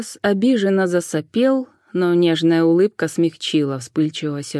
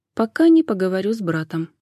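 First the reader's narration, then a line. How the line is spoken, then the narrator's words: Quiet addition. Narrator (Russian): она тихо добавила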